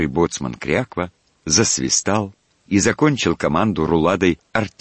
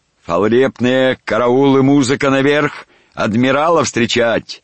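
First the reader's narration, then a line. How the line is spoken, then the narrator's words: Hoarse bass shout. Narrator (Russian): Щеголяя своим сепловатым баском, лейтенант крикнул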